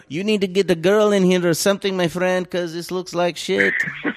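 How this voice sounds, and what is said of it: Put-on foreign accent, unclear origin. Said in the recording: “I gave him an accent, by the way... I'm not even sure what kind... Maybe that was Egyptian.”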